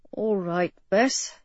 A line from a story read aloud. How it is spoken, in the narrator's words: he murmured, suddenly tired again